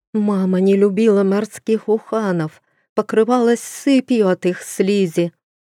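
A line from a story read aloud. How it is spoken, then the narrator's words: Moaning ghostly woman. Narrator (Russian): простонала душа графини Литы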